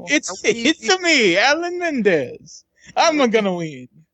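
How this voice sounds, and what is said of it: Imitates Mario video game voice. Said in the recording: “But I can do Mario.”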